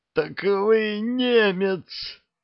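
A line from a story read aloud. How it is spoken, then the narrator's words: Pained groan. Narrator (Russian): простонал Лазовский, болезненно морщась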